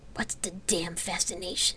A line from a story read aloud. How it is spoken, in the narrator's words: Celesta said in a disgusted whisper